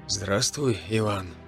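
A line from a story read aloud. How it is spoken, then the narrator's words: Quiet. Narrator (Russian): тихо произнес он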